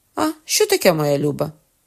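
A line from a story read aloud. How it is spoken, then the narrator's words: Laughing question. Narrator (Ukrainian): спитав Генріх і собі засміявшись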